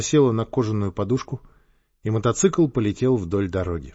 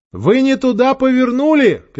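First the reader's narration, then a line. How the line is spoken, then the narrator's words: Shouted. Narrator (Russian): крикнула Ольга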